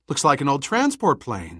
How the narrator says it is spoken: said Mary excitedly

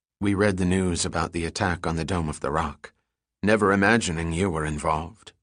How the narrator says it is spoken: she said quietly

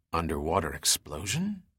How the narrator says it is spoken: Dirk muttered

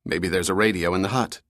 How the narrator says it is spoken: Dirk said

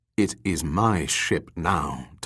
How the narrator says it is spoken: Tongju replied coolly

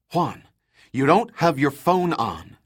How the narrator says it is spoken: said hotly

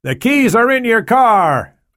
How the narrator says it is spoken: shouted over the noise from the engine and rotor blade

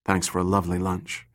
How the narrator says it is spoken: whispered

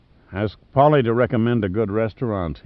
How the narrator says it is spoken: he muttered wearily

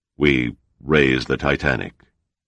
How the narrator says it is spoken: mumbled

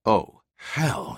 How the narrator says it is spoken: he whispered

